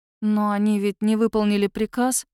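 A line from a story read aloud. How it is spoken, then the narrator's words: Uncertain. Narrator (Russian): неуверенно говорю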